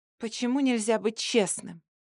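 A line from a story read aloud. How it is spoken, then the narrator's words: Tearful whisper. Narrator (Russian): прошептала сквозь слезы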